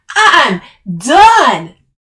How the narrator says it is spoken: she roared

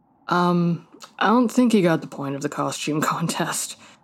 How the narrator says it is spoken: Marcus sighed

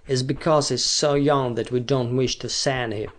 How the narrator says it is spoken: replied Sarka coldly

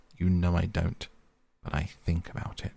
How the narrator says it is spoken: he added pathetically, in a lower tone

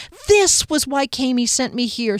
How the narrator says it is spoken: she cried

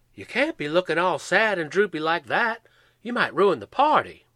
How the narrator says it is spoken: Ed exclaimed

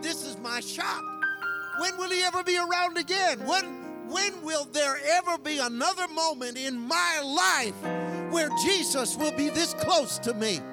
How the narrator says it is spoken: he began to shout

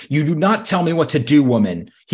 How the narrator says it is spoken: he screamed at Queen Cersei

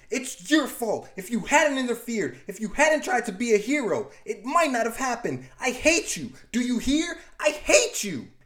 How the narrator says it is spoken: She screams

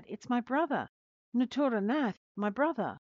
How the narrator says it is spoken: Suddenly, Shanti Devi stopped when she saw a young man and cried out

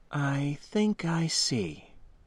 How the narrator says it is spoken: she replied slowly, and with what I took to be sincerity

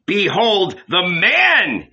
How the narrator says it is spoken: he shouted

